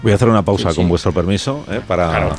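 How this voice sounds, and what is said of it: Very serious, formal interviewer tone. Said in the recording (Spanish): “estás poniendo voz muy seria todo el rato ... ¿Qué tono es este? ... Es un tono de respeto ... tono como de, si estuviéramos entrevistando.”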